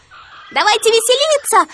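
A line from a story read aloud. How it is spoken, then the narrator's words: Monkeys shouting together. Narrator (Russian): закричали остальные обезьяны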